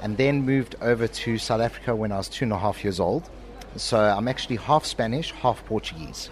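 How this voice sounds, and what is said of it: South African accent. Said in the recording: “I'm getting South African accent”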